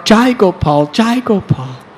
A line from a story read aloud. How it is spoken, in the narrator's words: he cried out